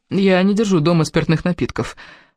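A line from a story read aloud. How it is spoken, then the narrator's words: Timid. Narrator (Russian): робко сказала она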